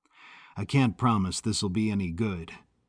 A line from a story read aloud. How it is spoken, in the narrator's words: Charlie murmured